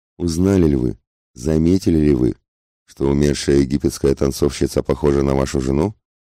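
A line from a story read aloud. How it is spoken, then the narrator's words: Calm. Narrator (Russian): Спокойно продолжил он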